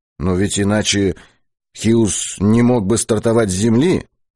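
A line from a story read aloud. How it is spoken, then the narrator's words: Timid interjection. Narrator (Russian): вставил Быков робко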